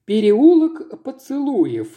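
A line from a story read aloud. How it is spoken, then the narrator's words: Breathless exclamation. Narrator (Russian): с придыханием воскликнула сестра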